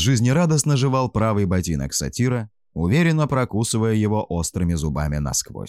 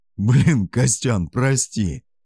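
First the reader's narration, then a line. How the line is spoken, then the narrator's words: Drunken laughter. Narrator (Russian): Пьяно рассмеялся Скай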